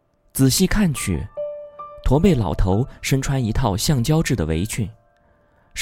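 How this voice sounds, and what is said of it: Usual voice. Nothing is said of it.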